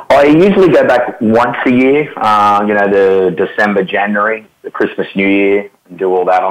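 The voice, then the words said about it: Southern US accent. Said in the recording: “your accent sounds like you're from Georgia or Mississippi”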